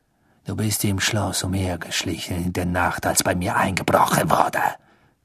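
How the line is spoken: Hissed. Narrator (German): zischte Snape

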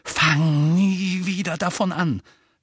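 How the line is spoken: Hissed angrily. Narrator (German): fauchte Harry

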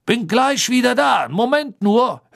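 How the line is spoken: Gruff brusque speech. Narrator (German): hörte ihn Harry barsch zu den Kobolden sagen

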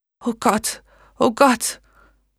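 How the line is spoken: Gasped. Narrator (German): Megan keuchte

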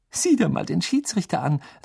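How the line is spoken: Giggling. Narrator (German): sagte sie kichernd

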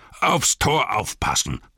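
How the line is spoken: Thundering command. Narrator (German): donnerte der Hauptmann

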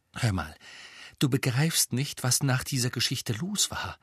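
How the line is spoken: Quiet. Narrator (German): sagte Hermine leise

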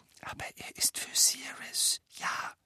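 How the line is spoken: Whispered addition. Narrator (German): setzte er flüsternd hinzu

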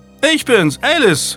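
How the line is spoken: Called out. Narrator (German): rief sie

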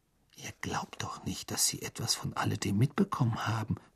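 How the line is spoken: Whisper. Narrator (German): flüsterte Hermine

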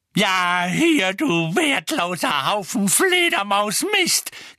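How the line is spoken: Shrieking. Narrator (German): kreischte Mrs

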